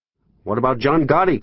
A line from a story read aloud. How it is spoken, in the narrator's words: called out NBC's Gabe Pressman